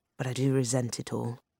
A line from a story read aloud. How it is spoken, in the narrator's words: she added grimly